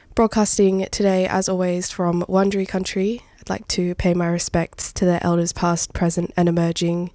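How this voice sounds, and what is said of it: Slightly gravelly, hoarse voice. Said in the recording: “you can hear it in my voice too... sorry in advance for the little gravel that I've got going”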